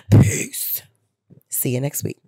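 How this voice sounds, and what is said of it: Deep put-on character voice. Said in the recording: “in my deepest Pam voice”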